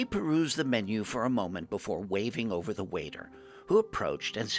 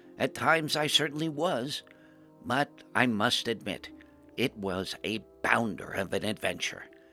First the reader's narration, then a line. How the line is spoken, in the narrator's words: I smiled gently at my dear friend and said